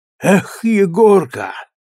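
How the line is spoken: Loud sigh. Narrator (Russian): шумно вздохнул

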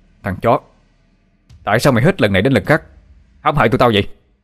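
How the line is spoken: Shout through gritted teeth. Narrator (Vietnamese): Tôi nghiến răng, mà quát lên

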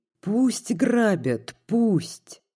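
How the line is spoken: Moaning. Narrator (Russian): застонала она

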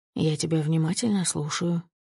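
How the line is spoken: Tender voice. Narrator (Russian): говорю нежным голосом

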